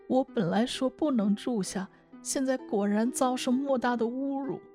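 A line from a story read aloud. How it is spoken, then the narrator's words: Panicked crying. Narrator (Chinese): 风三娘慌张地，哭着说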